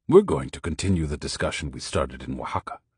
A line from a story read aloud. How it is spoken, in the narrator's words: he replied